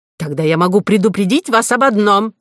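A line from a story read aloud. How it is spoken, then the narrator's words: Shouted. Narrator (Russian): закричал Горбуй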